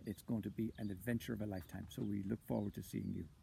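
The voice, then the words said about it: Irish accent. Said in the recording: “I come from Ireland. You've got me with the Irish accent”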